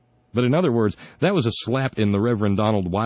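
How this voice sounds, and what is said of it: Usual voice. Nothing is said of it.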